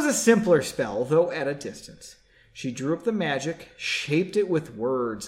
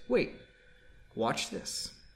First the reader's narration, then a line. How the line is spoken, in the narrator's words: quietly said